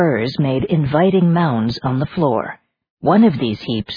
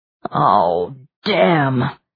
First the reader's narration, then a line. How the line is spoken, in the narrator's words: groaned the king